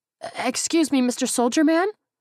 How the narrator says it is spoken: the teenager in the store uniform squeaked

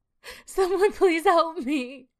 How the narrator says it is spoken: Shelby cries and cries out

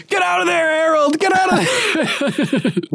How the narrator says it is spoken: kept yelling

